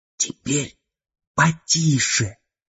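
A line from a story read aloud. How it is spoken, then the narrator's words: Male whisper. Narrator (Russian): прошептал Стирнер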